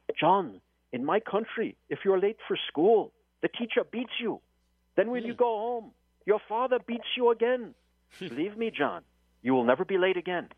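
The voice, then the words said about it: Put-on African accent. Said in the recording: “I'm going to feign his African accent”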